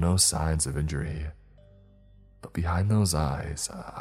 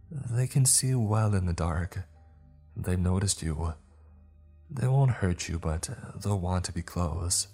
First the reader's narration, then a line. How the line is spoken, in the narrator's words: she said as calmly as always